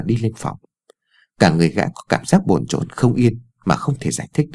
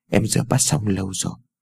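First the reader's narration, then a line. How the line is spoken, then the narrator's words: Gentle. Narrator (Vietnamese): Ái Dương vẻ dịu dàng nói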